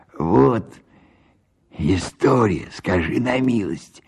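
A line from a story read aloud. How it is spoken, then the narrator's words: Muttered with a smirk. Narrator (Russian): пробормотал он, усмехаясь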